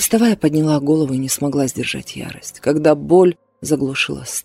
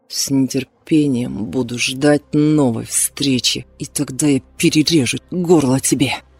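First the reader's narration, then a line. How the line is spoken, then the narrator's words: Through gritted teeth. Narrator (Russian): я произнесла сквозь зубы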